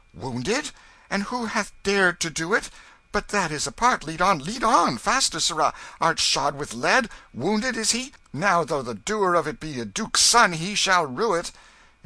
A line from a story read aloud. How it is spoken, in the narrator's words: The king's manner changed at once, and he cried out